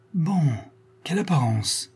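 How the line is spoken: Exclaimed. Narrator (French): s'écria la marquise

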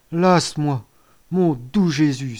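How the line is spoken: Mother's exclamation. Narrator (French): s'exclama la mère

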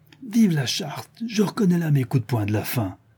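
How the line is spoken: Exclaimed. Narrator (French): s'écria le Chourineur

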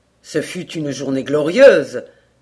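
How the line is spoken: Youthful enthusiastic exclamation. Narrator (French): s'écria Hayward dans un accès d'enthousiasme juvénile

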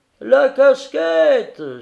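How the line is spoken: Crowd howling from back. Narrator (French): se mirent à hurler au fond les patriotes

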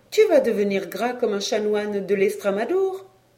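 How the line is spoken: Laughing. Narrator (French): elle me disait en riant

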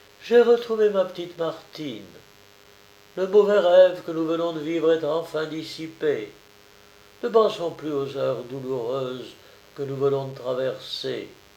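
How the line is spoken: Exclaiming. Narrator (French): s'écriait Madame Avrier

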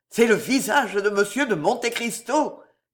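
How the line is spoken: Wild-eyed exclamation. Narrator (French): s'écria Villefort, les yeux hagards

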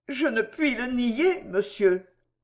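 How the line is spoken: Stammering. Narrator (French): balbutia Arabelle

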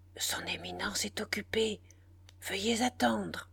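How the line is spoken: Low near-whisper. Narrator (French): d'une voix basse, à peine murmure dans le silence

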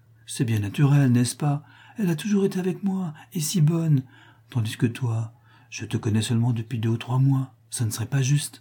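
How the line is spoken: Coaxing, affectionate. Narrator (French): dit-elle d'un ton câlin

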